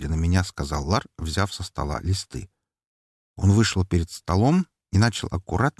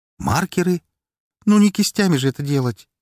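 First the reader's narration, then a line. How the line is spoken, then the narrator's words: Cheerful snort. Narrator (Russian): весело фыркнул он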